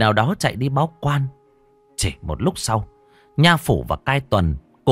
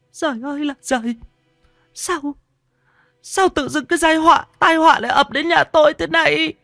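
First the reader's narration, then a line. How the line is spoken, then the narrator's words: Tearful whimpering. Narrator (Vietnamese): Bà ... mếu máo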